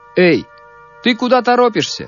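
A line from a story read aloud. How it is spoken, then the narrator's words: Soldier shouting. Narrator (Russian): крикнул мальчику солдат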